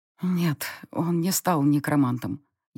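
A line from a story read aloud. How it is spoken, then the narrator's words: Barely audible. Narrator (Russian): едва слышно сказала я напрягшемуся фон Грейслингу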